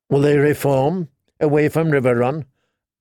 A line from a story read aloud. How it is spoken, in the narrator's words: asked Rob